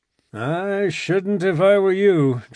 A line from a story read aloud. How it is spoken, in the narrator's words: drawled Bradley